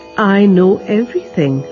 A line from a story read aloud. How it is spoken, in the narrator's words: replied Baba